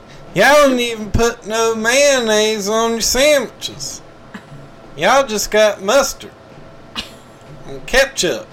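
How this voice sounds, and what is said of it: Put-on Southern US accent. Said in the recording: “you doing your southern accent always cracks me up”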